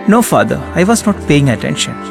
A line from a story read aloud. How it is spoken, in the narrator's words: she said